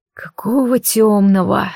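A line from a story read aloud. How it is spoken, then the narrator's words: Displeased mutter. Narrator (Russian): недовольное бормотание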